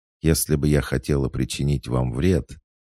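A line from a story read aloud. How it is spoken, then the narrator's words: Even, level tone. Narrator (Russian): все так же ровным тоном произнесла ведьма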